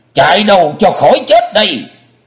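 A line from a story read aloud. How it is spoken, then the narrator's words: Bloodcurdling scream. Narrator (Vietnamese): Lã Trần Thiết Mà thét như rợn hồn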